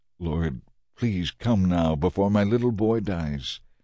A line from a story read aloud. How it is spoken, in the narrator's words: The official pleaded